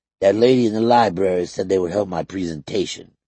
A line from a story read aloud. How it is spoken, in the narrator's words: he said